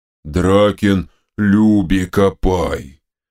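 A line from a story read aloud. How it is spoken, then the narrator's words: Booming drone. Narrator (Russian): прогудела левая голова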